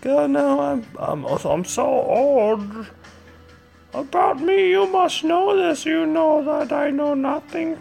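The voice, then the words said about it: Bad Yoda impression, old woman. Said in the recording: “I just did a really bad impersonation of a Yoda as a woman and as an old cat. That was horrible.”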